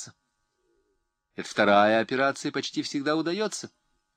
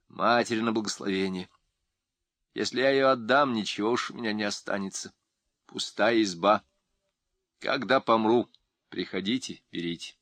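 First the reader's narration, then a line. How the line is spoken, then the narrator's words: Calm quiet woman. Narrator (Russian): Тетка Пелагея именно спокойно и тихо сказала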